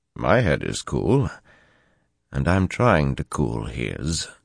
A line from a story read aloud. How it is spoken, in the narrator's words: Tom said dryly